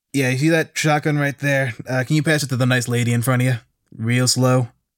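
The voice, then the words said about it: Game character voice. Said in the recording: “in-character voice”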